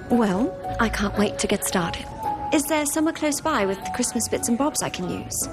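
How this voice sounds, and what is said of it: Adorable foreign accent. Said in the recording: “you are just adorable with that accent”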